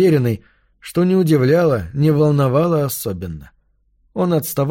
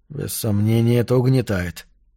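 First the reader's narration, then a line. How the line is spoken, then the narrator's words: Muttering. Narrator (Russian): пробормотал он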